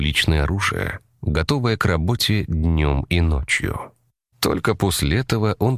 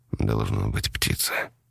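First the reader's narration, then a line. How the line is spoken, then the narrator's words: Whisper. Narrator (Russian): прошептал он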